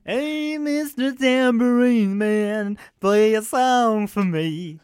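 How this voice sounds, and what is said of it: Sung imitation of another person's voice. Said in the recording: “That was like way too good of a singing voice. ... That was my impression that last bit.”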